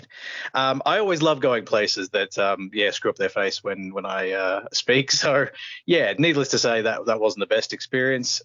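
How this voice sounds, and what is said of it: Australian accent. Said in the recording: “the guy heard my accent, and normally my accent is met with, oh, you're from Australia”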